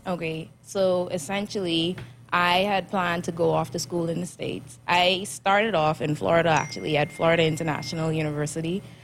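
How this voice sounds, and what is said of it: Bahamian accent. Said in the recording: “You're from the Bahamas, so you have the awesome Bahamian accent.”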